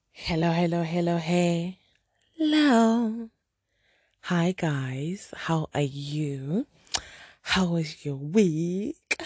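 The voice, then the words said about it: Excited, happy voice. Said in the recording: “If you cannot hear from my voice, I am excited. I am happy.”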